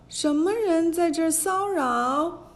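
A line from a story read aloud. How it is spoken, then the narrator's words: Child shouting loudly. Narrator (Chinese): 这位童子高声叫道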